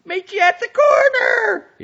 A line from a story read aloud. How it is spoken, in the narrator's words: he shrieked, probably in hysterics